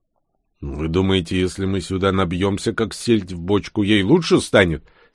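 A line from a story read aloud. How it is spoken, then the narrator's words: Angry question. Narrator (Russian): сердито спросил у них Бур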